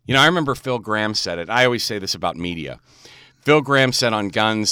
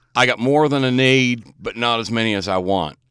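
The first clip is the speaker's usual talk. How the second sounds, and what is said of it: Impression of Phil Graham. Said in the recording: “Not a bad Phil Graham impersonation.”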